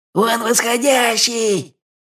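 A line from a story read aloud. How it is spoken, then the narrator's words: Frantic wail. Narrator (Russian): завопил как потерпевший свор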